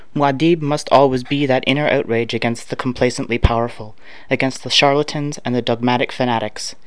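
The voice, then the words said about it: Canadian accent. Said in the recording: “I've been told that I do, so probably I have a Canadian accent.”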